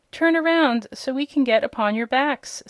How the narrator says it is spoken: said Rosalie

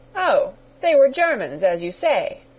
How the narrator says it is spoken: cried the Colonel, excessively vexed at the necessity of explaining it all

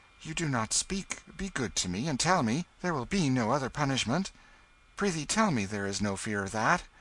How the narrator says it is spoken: He said eagerly

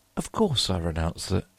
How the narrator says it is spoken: Louis looked at me with a startled air, but recovering himself said kindly

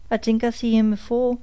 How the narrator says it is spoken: said Caesar, chuckling

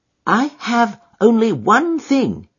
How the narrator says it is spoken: he said

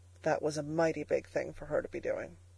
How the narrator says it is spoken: said Freckles in a hushed voice

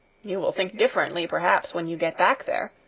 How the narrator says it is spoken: grumbled the miller

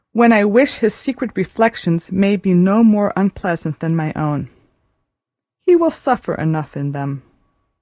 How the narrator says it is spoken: said Marianne at last with a sigh

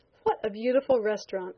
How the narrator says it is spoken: I exclaimed

